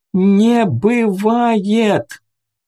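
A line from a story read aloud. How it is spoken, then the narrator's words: Screaming at full voice. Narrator (Russian): девушка закричала изо всех сил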